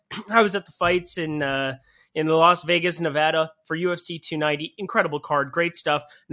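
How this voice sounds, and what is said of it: Slightly hoarse, fading voice. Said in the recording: “I'm losing my voice a little bit.”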